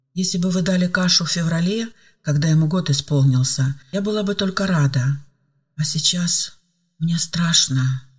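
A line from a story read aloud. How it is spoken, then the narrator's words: Uncertain reply. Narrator (Russian): неуверенно ответила Ева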